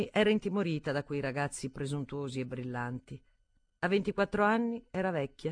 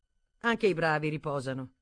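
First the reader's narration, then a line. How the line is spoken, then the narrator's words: Curt. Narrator (Italian): disse seccamente Wilkie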